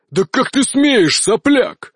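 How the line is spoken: Roaring. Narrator (Russian): взревел он

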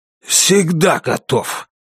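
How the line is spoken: Hoarse voice. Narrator (Russian): сипло сказал Китон

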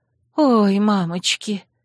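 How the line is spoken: Breathless gasp. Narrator (Russian): выдохнула Жанна

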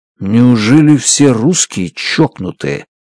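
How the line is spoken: Whisper. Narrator (Russian): шепнул я Дмитрию

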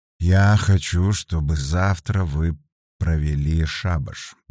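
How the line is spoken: Quiet but very firm. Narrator (Russian): негромко, но очень твердо произнес Каин

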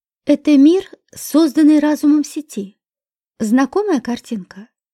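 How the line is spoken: Plain. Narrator (Russian): спросил Курт

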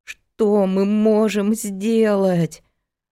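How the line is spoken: Gloomy question, voice trembling with fear. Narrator (Russian): уныло спросил Петя, у которого от реальной перспективы близкой смерти дрожал голос

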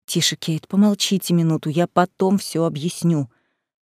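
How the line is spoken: Close, hushed whisper. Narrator (Russian): прошептал мне в волосы Эдвард

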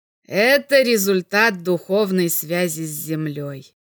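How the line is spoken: Slightly mocking. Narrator (Russian): чуть насмешливо ответил Белопольский

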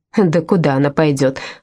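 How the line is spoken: Snorting. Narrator (Russian): фыркнула Дора

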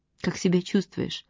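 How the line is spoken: Soft question. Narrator (Russian): спросила мягко

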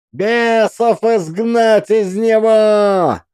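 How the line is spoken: Crowd yelling. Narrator (Russian): орала толпа

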